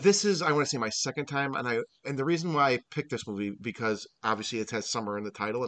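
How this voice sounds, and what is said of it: Strained, fading voice. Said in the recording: “I'm losing my voice here.”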